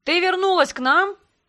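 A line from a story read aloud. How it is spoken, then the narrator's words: Loud question over music. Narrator (Russian): Перекрикивая музыку, громко задал вопрос тот, кто представился как Гондор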